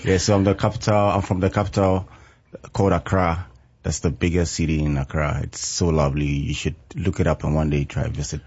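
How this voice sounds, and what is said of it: Ghanaian English accent. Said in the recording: “I knew you were not from Kentucky. ... that dialect. ... I love it.”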